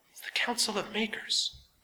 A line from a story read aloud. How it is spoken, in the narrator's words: Renamon Ratchet whispered